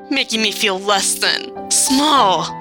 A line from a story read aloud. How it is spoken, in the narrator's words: Nolan hissed